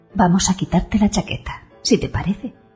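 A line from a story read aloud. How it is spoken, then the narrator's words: Said softly. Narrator (Spanish): dice en voz baja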